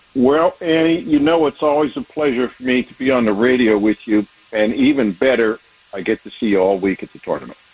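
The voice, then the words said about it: Pittsburgh accent. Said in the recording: “Plus, I like his accent.”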